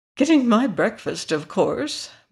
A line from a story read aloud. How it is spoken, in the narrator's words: murmured the hen, busily pecking away